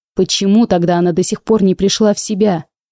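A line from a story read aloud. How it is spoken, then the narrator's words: Angry growl. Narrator (Russian): рычал обычно уравновешенный герцог Ломанский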